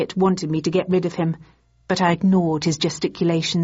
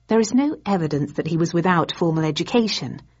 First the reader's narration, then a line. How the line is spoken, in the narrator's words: returned evenly, suddenly enjoying myself